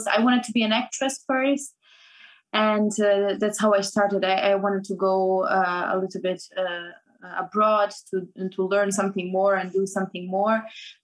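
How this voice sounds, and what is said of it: Non-native English accent. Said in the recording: “because of my accent, of course, it was really difficult to start an acting career”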